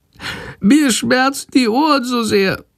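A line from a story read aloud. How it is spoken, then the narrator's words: Meek sick whimpering. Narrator (German): jammert die kranke Fledermaus ganz kleinlaut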